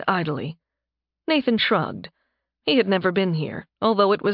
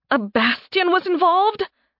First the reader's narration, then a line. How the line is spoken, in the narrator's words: Alice spluttered